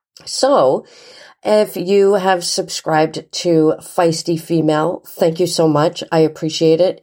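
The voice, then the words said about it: Voice sounds sick, recovering. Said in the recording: “hear it in my voice a little bit that I'm just getting over being sick”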